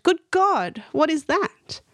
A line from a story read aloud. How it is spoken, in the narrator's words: My wife exclaimed